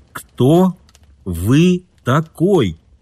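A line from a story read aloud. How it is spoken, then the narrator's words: Slow, distinct. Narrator (Russian): медленно, отчетливо проговорил Кит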